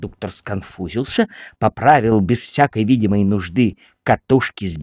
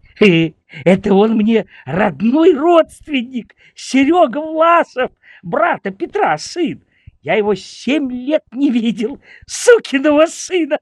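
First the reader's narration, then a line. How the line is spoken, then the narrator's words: Joyful shout. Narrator (Russian): Тимофей Васильевич с радостью закричал ему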